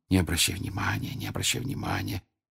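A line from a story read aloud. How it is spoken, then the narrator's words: Repeated whisper. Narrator (Russian): Гермиона все время твердя шепотом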